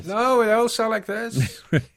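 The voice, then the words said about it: Vague generic European accent. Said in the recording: “some kind of generic European accent ... vaguely European male models”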